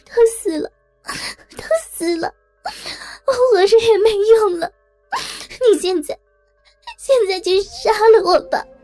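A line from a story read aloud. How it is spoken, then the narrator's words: Tearful crying, woman. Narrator (Chinese): 妇人泪眼婆娑的哭泣道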